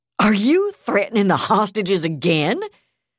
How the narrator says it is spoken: Yardley laughed harshly

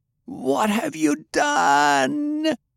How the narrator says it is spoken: shrieked

